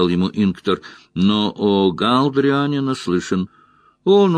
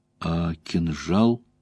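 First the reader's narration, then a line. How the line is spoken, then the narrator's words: Timid question. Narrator (Russian): робко поинтересовался Мэтт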